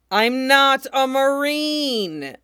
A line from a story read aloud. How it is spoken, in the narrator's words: Ace yells, probably too loud